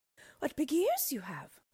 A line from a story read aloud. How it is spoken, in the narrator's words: she exclaimed wonderingly